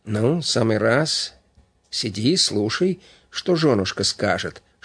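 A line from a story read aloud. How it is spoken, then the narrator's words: Whisper. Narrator (Russian): шепнул Панкратов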